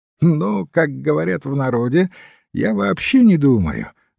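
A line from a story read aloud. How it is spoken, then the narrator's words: Laughing. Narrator (Russian): засмеялся казначей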